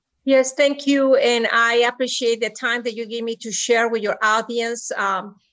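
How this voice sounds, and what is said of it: Speaks with an accent. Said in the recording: “In spite of my accent,”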